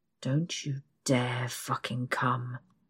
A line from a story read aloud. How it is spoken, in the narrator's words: he growls